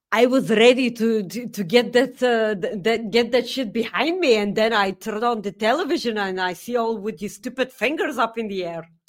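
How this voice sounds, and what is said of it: Attempted Scottish accent. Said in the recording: “I don't know what accent that was ... I tried to do a Scottish accent. ... I was pretty close ... you can't exactly do a Scottish accent”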